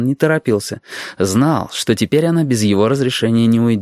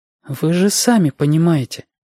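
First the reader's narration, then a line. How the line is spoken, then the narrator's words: Uncertain. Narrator (Russian): сказала Павла неуверенно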